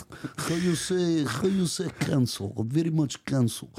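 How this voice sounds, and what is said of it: Put-on Russian accent. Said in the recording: “Why is it Russian? ... you can do a Russian impression”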